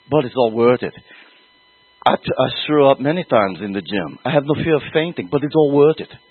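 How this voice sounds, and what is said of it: Affected Austrian accent impression. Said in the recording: “With my best Austrian affected accent, which most of you will not understand at all ... That's a line from Pumping Iron, so now you probably know who I'm imitating here.”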